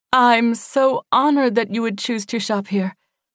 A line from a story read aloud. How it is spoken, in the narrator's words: she gasped